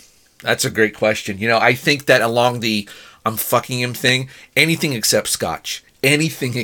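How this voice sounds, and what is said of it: Usual voice. Nothing is said of it.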